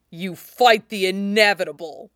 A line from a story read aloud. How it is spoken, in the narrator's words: snarls